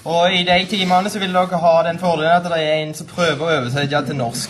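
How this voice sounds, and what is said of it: Norwegian with Karmøy dialect. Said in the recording (Norwegian): “Eller Karmøy dialekt.”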